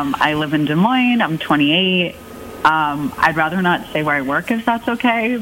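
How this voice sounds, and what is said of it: Usual voice. Nothing is said of it.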